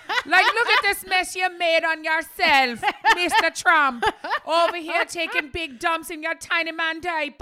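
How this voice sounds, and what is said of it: Put-on accent, poorly done. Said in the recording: “That's a terrible Mexican accent. ... That's a very good Irish one, though”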